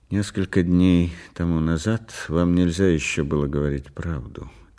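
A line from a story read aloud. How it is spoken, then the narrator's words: Quiet. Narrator (Russian): тихо сказал он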